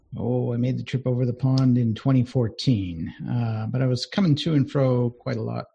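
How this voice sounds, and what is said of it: American accent. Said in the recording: “pick up the accent, you are in the UK, but you're not native... originally... Seattle, Washington”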